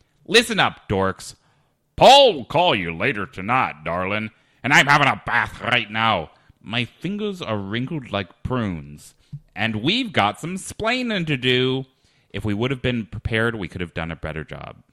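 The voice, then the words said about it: Angry voice then shifting accents. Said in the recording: “starting up with sort of an angry voice, then followed by a Texas accent, then a Scottish accent, then an English accent, then a hyper version of my voice, and ending without an accent.”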